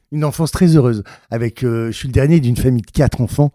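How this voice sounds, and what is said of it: Northern French ch'ti accent. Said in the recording (French): “Tu joues d'ailleurs avec cet accent ch'ti là. Moi, je l'aime bien cet accent.”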